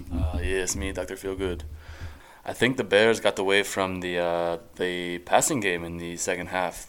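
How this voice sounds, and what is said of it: Bad fake accent. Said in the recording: “his horrible fake accent”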